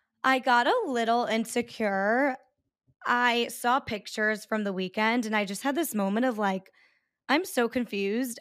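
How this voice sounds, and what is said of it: Raspy voice. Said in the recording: “as you can hear, I have kind of like a raspy voice”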